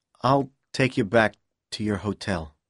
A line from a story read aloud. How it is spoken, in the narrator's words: said quietly